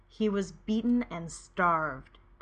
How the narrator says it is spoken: Derek growls

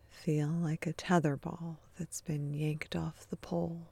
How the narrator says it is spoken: he murmurs

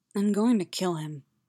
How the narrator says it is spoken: murmured

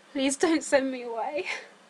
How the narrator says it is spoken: Sam sobbed

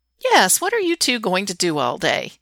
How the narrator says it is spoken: Cora asks brightly

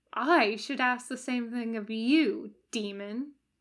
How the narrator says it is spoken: Aziraphale muttered darkly

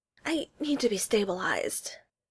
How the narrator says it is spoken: Pike says shakily

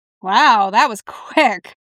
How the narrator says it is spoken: Dick laughed

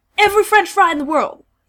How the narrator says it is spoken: Dean snaps

